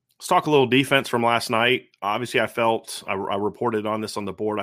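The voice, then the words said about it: Strained, worn-out voice. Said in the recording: “My voice is a little bit shot from yesterday's show”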